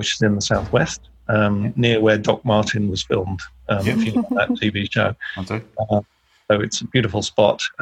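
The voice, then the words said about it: English accent with Australian tinge. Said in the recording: “You can probably tell from my from my accent. It's funny, whenever I go back to the UK, everyone thinks I sound like an ochre. And over here, everyone thinks I sound like a pond. So I'm sort of I'm lost in the mid-Pacific somewhere”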